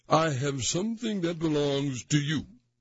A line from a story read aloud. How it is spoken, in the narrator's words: cried